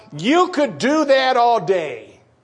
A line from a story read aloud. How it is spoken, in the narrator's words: someone shouted out